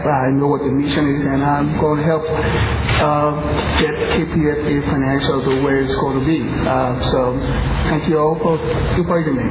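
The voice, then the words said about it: Liberian-accented English. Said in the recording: “I was born in Liberia, West Africa ... even though I have an accent”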